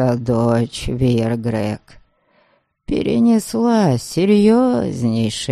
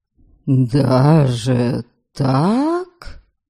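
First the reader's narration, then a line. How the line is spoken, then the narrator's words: Surprised drawl. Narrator (Russian): Удивленно протянул отец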